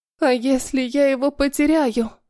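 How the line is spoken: Sobbing. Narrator (Russian): говорит и всхлипывает

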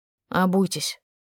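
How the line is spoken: Dry, curt guard. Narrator (Russian): сухо сказал охранник

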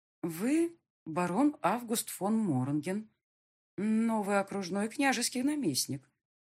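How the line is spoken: Uncertain speech. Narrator (Russian): неуверенно проговорила

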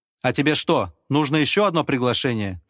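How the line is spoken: Shouted at someone. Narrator (Russian): крикнул я на парня

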